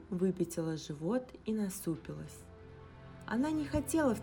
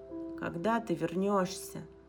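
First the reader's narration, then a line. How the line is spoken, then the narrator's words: Sighing. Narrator (Russian): вздохнул Инг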